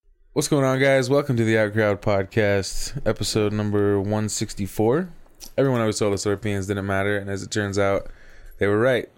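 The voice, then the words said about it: Sick-sounding, tired just-woke-up voice. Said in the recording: “Can you still hear it in my voice? ... A little bit? Yeah. ... The yuckies. Sick. ... I just sound sick. ... Could pass for tired. ... Like just woke up voice.”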